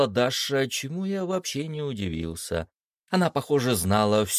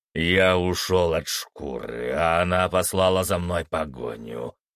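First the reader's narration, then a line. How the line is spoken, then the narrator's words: Werewolf's snort. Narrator (Russian): фыркнул оборотень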